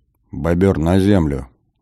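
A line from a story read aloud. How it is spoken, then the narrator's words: Quiet command. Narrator (Russian): негромко скомандовал я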